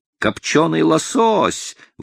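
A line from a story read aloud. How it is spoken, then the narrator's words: Exclaimed. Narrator (Russian): воскликнул кокос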